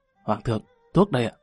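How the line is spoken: Soft hurried reminder. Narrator (Vietnamese): Cao Công Công vội dâng lên hai viên dược hoàn, khẽ nhắc

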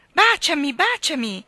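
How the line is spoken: Group of girls shouting. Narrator (Italian): gridava un gruppo di ragazze

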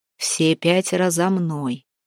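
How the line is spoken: Steady-voiced command. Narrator (Russian): недрогнувшим голосом приказал Куприян

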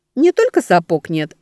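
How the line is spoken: Laughing. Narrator (Russian): рассмеялась Велька

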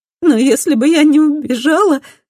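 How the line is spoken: Sobbing. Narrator (Russian): всхлипывает Мадде

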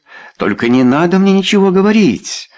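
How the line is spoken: Exclaiming. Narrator (Russian): воскликнула она

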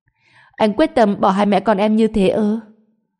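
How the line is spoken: Stammering, at a loss. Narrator (Vietnamese): Trần Bình lắp bắp không biết phải nói gì

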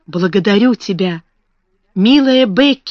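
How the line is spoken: Exclaiming. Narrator (Russian): воскликнула она

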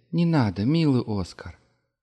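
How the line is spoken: Soft. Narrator (Russian): мягко сказала Ефремова

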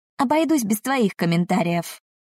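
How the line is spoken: Snapping retort. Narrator (Russian): огрызнулась Сара

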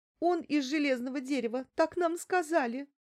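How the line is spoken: Sobbing speech. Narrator (Russian): всхлипывая проговорила Лариса

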